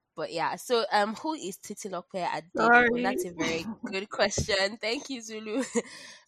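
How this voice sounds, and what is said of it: Congested voice with a cold. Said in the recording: “I have a cold and cough, so just that may affect my voice.”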